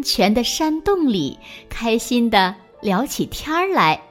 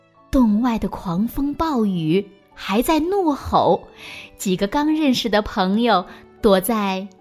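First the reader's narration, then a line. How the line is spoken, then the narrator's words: Generous, laughing. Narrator (Chinese): 野兔大度的笑着说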